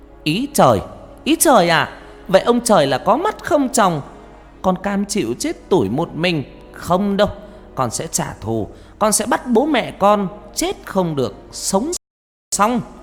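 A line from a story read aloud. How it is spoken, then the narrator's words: Near-shouting in silent night. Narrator (Vietnamese): Con Hoa tiếng nói như hét lên giữa bốn bề đêm vắng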